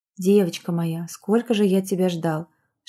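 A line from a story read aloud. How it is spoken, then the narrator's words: Whispering. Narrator (Russian): шептал тем временем Мигель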